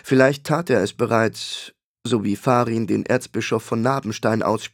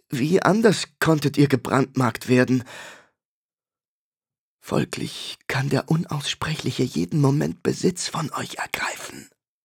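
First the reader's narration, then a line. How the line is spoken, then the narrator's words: Shivering, fearful whisper. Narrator (German): flüsterte der Totengräbersohn fröstelnd, als könnte der Feind mithören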